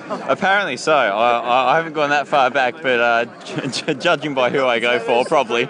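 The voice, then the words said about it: Slight Australian accent. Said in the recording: “You've almost got an Australian accent there.”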